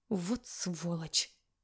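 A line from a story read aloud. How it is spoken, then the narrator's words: Hiss through teeth. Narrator (Russian): шиплю сквозь зубы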